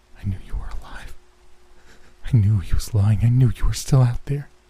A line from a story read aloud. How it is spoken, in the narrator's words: a whisper, I could hear him mutter